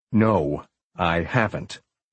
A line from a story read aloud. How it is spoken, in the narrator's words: Marcus said, his voice calmer and his tone more circumspect